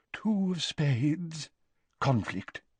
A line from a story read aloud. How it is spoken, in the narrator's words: she murmured